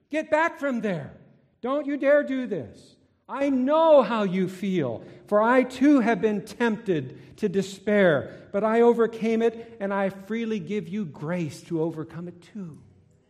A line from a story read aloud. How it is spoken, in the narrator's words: Jesus will yell at you